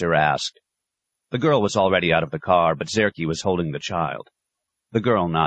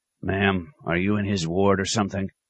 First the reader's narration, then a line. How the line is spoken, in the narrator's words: Then softly